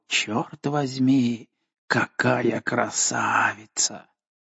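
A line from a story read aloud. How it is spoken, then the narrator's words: Muttered in admiration. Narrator (Russian): в восхищении пробормотал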